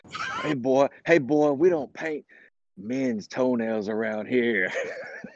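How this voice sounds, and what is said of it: Put-on Texas accent. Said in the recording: “I don't know if that was a Texas accent. ... It's my best.”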